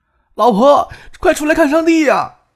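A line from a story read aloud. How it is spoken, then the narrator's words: Shrill shout. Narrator (Chinese): 尖锐的叫声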